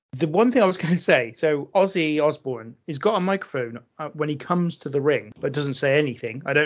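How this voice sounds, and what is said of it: Usual voice. Nothing is said of it.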